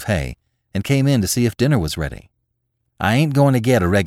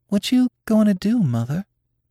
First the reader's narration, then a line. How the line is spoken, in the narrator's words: inquired Nanny in a timid voice